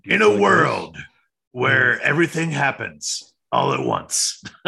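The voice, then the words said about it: Deep movie trailer narrator voice. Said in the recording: “That's my trailer guy voice.”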